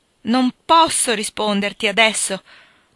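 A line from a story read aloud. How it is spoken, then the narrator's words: Woman pleading. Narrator (Italian): ha supplicato lei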